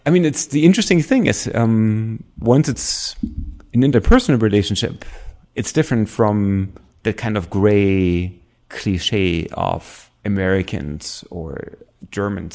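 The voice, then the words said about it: German accent. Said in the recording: “I speak with a German accent”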